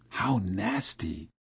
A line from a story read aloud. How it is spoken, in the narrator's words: I whispered